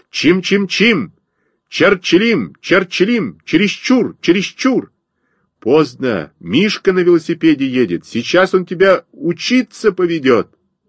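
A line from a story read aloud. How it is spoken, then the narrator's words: Shouting from afar. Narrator (Russian): я крикнул Косте с забора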